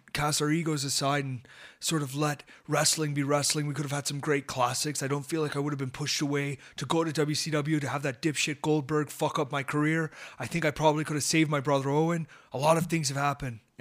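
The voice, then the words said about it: Impression of Bret Hart. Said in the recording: “my impression of both Bret Hart, which I gave you a preview of, and Shawn Michaels ... Here's Bret Hart.”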